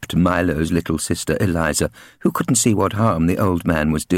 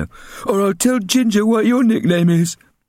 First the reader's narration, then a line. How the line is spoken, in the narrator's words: barked Milo